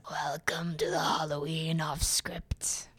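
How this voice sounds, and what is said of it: Spooky scary voice. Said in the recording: “Very scary voice”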